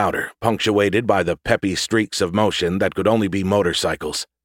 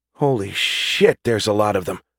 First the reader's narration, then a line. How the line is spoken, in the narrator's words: Bruno exclaimed softly